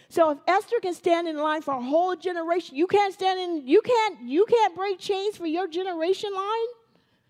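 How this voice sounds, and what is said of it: Loud, yelling preaching voice. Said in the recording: “I feel like I'm yelling.”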